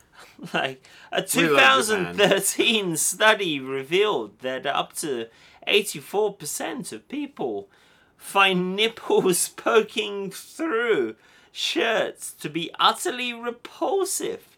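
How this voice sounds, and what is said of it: British accent. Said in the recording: “his British accent”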